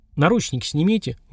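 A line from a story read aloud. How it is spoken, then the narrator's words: Gloomy. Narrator (Russian): мрачно сказал Сергар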